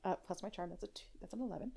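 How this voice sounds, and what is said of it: Whispering. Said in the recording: “why you're whispering”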